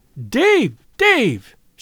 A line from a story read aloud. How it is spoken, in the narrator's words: she cried